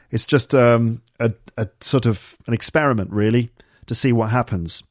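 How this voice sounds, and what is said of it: British received pronunciation accent. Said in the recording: “my accent is basically standard received pronunciation, which is said to be not specific to any region of the UK ... usually associated with educated middle class people, probably from the southeast of England”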